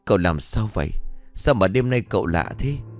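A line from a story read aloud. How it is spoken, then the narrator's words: Terrified stammering. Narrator (Vietnamese): Tám run rẩy như cầy sấy, lắp bắp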